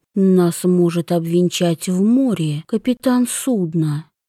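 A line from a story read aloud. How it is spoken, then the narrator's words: Soft breathy murmur. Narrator (Russian): тихо выдохнул Йон ей в волосы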